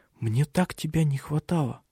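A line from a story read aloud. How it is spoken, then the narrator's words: Tender whisper. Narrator (Russian): Она все шептала нежные слова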